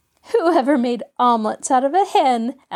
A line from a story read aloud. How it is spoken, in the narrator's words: asked Jean, laughing